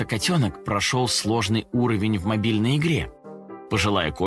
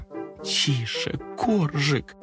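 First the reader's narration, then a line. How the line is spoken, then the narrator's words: Pleading. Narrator (Russian): Взмолилась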